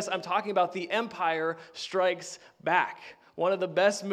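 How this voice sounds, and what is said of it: Usual voice. Nothing is said of it.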